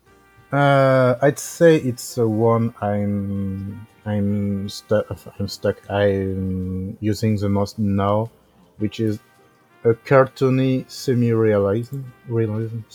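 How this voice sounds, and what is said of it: French accent. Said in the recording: “Sorry for my accent. I'm French.”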